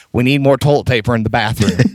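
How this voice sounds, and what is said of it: Put-on Southern US accent. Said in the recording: “it had to be with the Southern accent. Because in my mind, I just hear somebody from the South”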